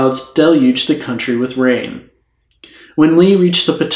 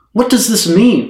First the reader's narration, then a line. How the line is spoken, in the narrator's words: Lincoln cried to his son Robert